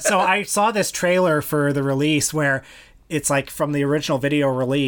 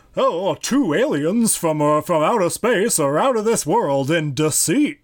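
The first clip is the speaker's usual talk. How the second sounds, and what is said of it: Silly trailer-narrator voice. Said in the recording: “if you know his voice, it's kind of a silly voice”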